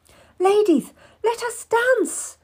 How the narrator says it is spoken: exclaimed

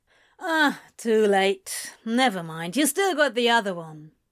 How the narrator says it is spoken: Crowley grumbled

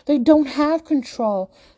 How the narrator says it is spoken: Sophie yells in return

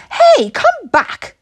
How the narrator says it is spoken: shouted Lily Jean

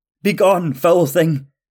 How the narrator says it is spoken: shout

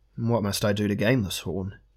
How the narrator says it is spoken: he asked

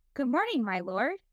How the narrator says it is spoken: said brightly

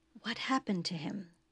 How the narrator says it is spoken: Troy whispered in his ear

